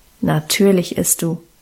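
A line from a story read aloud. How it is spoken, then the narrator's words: Calm, firm command. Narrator (German): bestimmte Guste ruhig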